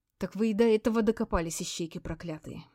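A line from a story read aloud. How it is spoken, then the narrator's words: Grim surprise. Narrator (Russian): мрачно удивилась такой эффективной работе милиции Беспалова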